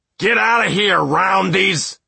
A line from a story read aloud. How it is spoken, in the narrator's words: shouted one of the squares